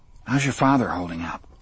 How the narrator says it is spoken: Jamie sighed

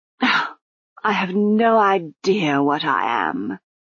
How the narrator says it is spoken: sighed Lady Lejeune

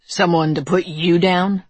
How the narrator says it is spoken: Dalton says

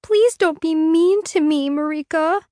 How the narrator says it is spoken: she whimpers

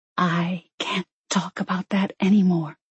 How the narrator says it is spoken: she whispered

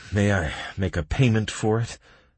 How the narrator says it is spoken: I asked through gritted teeth, against greed, greed with a feeling of guilt mixed in

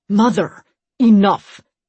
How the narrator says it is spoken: Deimos snapped

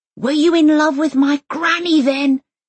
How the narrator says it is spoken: Elsa yells after him

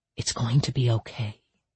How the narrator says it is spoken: she whispered

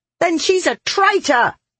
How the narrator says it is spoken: a woman shrieked

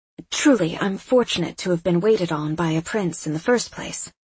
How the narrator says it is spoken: I added quickly

